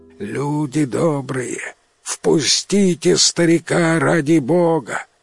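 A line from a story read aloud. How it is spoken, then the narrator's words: Old man's pleading voice. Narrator (Russian): Иванка просит старческим голосом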